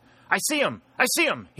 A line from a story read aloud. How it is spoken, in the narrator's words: he cried